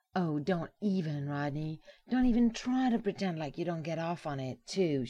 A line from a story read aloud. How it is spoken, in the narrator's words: she shrieked